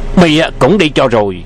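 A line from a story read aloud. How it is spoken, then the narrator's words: Shout. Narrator (Vietnamese): Miệng quát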